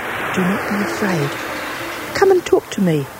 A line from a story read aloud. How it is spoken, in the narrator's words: whispered Karetaki